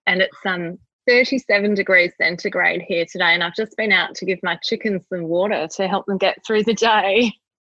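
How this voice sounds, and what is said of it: Australian accent. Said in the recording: “your lovely accent”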